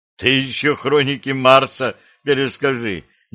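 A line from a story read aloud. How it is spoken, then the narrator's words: Exasperated outburst. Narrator (Russian): не выдержал Картышев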